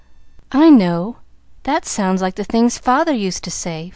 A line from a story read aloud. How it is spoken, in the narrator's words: faltered Pollyanna, blinking off the tears